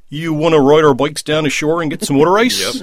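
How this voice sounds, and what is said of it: Mid-Atlantic Philly-Baltimore accent. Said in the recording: “That's the mid-Atlantic accent. ... That's very good.”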